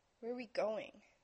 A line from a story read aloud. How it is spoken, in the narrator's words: he grunted out, swallowing around sleep's sour taste in his mouth